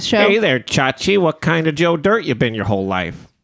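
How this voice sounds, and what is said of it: Imitates another person's voice. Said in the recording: “Is that a good Dennis Miller impression? ... You're doing a Joe Dirt impression while you're talking like Xander. I was trying to do Dennis Miller. You just sound like Joe Dirt.”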